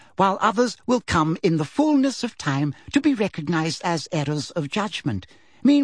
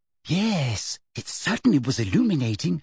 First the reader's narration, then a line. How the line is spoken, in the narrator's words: said Hermione in a low voice